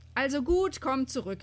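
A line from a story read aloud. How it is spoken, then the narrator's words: Calling. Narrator (German): rief sie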